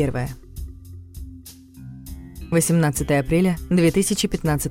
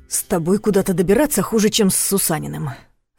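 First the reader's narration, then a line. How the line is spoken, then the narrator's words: Irritated exhale. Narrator (Russian): раздраженно выдохнул Ваня Сидоров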